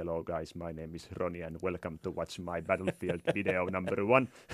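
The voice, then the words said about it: Heavily accented English. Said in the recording (Finnish): “ja karsee ... aksenttia tolleen”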